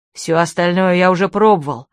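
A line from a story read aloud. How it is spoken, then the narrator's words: Growling. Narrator (Russian): зарычал на нее Питер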